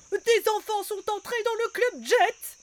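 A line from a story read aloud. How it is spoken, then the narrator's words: Goblin shouting. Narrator (French): crie un lutin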